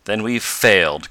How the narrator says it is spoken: cried Tom bitterly

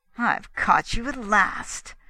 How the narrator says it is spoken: fairly hissed Drummond

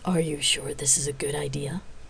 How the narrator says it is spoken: Micah whispered

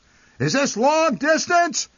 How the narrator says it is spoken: he would shout into the receiver

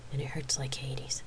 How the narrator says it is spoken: she said in an almost whisper

